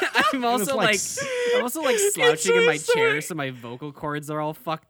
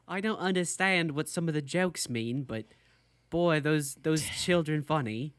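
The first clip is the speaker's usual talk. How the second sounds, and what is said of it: Bad put-on British accent. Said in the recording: “your British accent is ... Wildly bad.”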